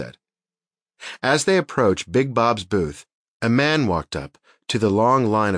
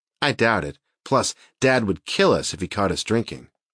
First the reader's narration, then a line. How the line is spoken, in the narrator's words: Leanne said